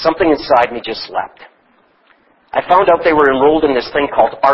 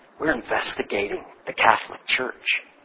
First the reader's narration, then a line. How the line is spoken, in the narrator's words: She lowered her voice and said